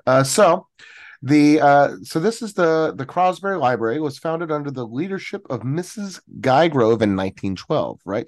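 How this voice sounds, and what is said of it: Own accent in saying 'library'. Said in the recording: “I think I keep saying library. That's my accent”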